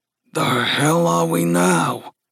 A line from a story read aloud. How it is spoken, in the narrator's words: Gus grumbled